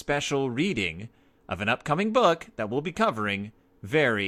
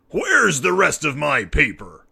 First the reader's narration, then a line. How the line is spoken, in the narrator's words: thundered an angry Papa Bear